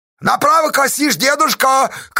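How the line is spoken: Shout from crowd. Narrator (Russian): крикнули из толпы

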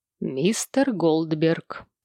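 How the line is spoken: Low voice. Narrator (Russian): произнес Сэм вполголоса

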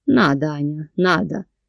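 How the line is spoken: Sly teasing, then sighing complaint. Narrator (Russian): Не скрывая хитрой улыбки, подразнил и, вздохнув, пожаловался

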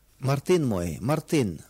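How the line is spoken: Plain. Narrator (Russian): ответила она

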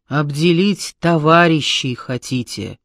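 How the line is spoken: Menacing scolding. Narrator (Russian): грозно стыдила она смутьянов

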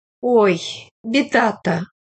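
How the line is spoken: Sympathetic sigh. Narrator (Russian): вздохнула, сострадая заранее

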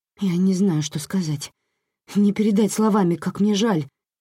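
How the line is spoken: Babbling. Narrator (Russian): лепетала она

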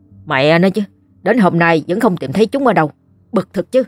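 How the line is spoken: Irritated. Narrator (Vietnamese): ông Tâm bực bội nói

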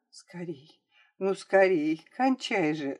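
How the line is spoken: Whispering to herself. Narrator (Russian): шептала она про себя

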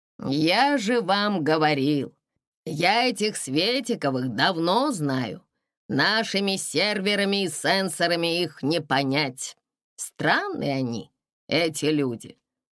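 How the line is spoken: Weary. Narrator (Russian): Устало сверкнул телек

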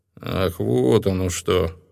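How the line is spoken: Muttered. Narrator (Russian): пробормотал хранитель

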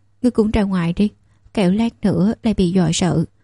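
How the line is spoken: Gentle. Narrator (Vietnamese): Sở Kiều Tình dịu dàng

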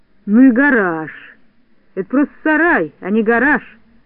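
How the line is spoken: Grumbled. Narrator (Russian): проворчал Шпунтик

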